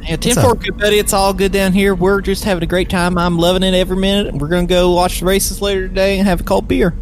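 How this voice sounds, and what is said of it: Put-on nasal West Virginia accent. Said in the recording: “So ... is now in Texas, I guess. ... what is this? What is this accent? ... This is the accent that I'm surrounded by ... this is your West Virginia. ... Yeah, West Virginia. ... Oh, is it that nasally? ... It's all up here in the top of your face.”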